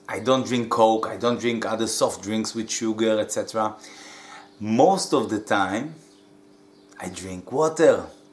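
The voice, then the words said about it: Israeli accent. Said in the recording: “I'm from Israel, hence the dodgy accent”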